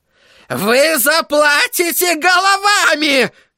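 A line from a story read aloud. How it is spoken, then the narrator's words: Frenzied furious shouting. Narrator (Russian): кричал Флэг, обезумев от гнева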